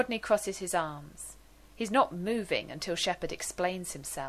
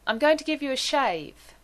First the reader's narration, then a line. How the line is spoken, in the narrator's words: he half shouts